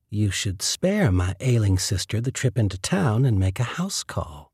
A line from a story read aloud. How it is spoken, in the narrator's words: purred